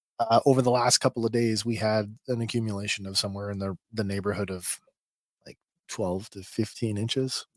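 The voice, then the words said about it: Very hoarse voice. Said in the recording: “I don't know if you can hear it in my voice. I have a very hoarse voice tonight.”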